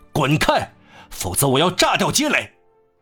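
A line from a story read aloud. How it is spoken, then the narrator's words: Terrifying shout. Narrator (Chinese): 他发出这令人心惊胆战的喊声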